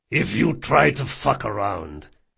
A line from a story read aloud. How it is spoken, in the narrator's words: he growled